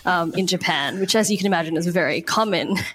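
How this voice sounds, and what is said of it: Sarcastic deadpan delivery. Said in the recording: “I'm being totally being sarcastic.”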